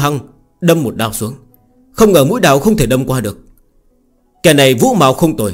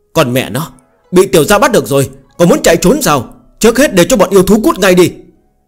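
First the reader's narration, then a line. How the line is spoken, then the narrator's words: Shout. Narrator (Vietnamese): Phương Hành quát lên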